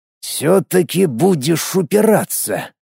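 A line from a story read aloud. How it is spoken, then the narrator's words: Said through teeth. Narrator (Russian): процедил он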